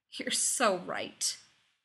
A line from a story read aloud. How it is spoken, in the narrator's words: he moaned